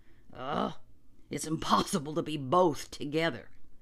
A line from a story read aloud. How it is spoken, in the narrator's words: said John grimly